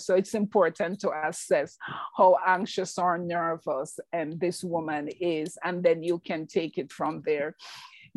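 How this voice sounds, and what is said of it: Strong Jamaican accent. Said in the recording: “I have a very strong Jamaican accent.”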